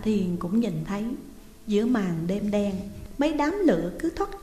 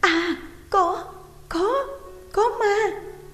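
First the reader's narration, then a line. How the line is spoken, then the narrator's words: Panicked scream. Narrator (Vietnamese): Tôi vội kêu lên thất thanh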